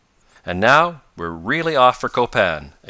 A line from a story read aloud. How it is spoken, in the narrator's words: exclaimed Professor Bumper